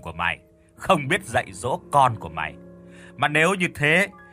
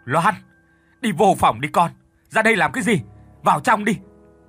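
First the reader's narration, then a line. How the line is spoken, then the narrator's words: Loud shout. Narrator (Vietnamese): ông Phiên thì ông hét lớn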